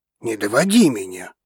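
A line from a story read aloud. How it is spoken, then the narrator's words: Growl. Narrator (Russian): рыкнул мужчина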